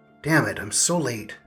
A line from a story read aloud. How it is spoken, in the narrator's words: the person who walked in grumbled